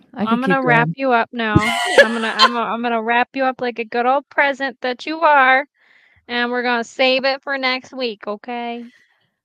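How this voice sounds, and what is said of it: Mild put-on Southern accent. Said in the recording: “I don't know why I turn like Southern sometimes. ... You call that Southern? ... when you're from New York, that sounds Southern to me”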